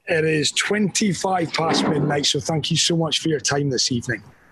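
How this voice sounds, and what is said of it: Scottish accent. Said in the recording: “Why do you sound Scottish?... It's because I am Scottish. Aberdeen is home.”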